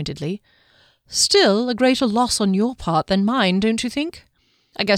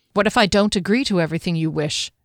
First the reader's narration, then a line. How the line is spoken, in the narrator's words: she said stiffly